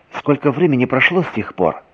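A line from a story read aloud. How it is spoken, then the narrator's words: Plain. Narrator (Russian): спросила Ольга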